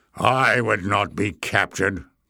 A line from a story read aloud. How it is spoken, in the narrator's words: growled Glock